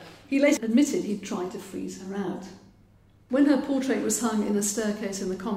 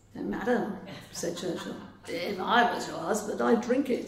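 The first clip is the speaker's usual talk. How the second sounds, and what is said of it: Churchill impression accent. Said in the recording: “Forgive the accent.”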